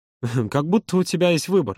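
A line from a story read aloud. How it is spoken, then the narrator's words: Sad snort. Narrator (Russian): грустно хмыкнул Юра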